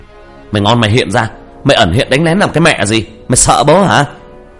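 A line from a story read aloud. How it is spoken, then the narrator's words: Defiant yell. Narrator (Vietnamese): Tôi gào lên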